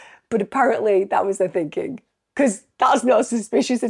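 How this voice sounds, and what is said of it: Usual voice. Nothing is said of it.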